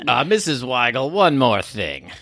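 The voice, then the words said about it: Imitates another person's voice. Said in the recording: “That was my Columbo impression ... That was very good.”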